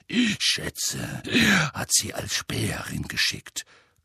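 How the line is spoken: Growled. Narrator (German): knurrte Moody

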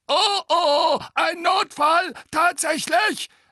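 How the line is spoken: Shrill gargoyle voice. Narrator (German): sagte der andere Wasserspeier mit schriller Stimme

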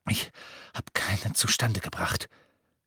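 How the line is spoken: Panting. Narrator (German): keuchte er

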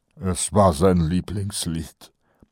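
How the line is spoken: Sad statement. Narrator (German): stellte Kolon traurig fest

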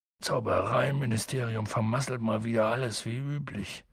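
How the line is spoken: Grumble. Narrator (German): brummte Hagrid

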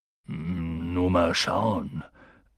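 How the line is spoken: Unsure voice. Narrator (German): sagte er mit unsicherer Stimme

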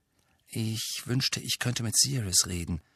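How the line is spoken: Murmuring. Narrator (German): murmelte er

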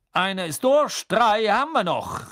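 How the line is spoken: Calling out. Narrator (German): rief Bergman

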